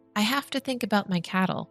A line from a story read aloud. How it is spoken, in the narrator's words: replied the shepherd